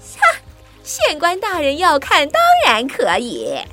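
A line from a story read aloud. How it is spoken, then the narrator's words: Laughing. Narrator (Chinese): 女巫笑着说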